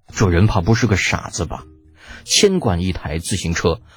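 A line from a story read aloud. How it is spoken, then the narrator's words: Muttering. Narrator (Chinese): 长孙冲喃喃道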